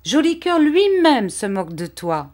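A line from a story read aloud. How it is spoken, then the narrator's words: Exclaiming. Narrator (French): s'écriait Vitalis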